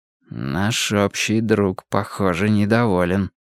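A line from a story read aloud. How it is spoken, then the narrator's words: Muttered. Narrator (Russian): пробормотал я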